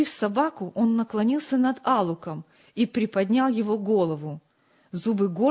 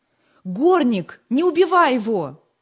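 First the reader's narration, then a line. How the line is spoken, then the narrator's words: Terrified scream. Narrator (Russian): Вне себя от испуга Джим закричал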